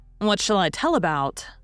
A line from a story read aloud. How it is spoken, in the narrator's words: said